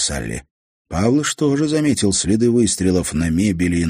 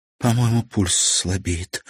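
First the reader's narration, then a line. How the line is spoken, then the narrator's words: Whisper. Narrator (Russian): прошептала Салли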